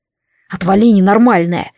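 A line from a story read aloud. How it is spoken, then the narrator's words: Growling young man. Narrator (Russian): прорычал парень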